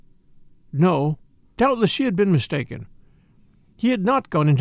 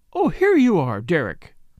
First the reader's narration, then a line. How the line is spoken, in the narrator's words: cried Lady Tamplin